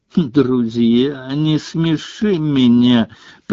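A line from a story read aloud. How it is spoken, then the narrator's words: Contemptuous, through teeth. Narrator (Russian): презрительно процедила Лаванда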